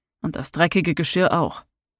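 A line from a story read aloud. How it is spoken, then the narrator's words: Angry growl. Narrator (German): knurrte verärgert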